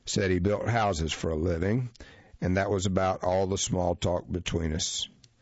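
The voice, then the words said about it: Heavy southern American accent. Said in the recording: “a heavy southern accent, not much different from my own”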